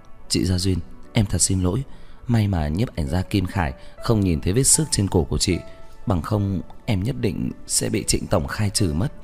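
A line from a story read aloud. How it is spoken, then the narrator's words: Worried voice. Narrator (Vietnamese): Tiểu Hồng nói với giọng lo lắng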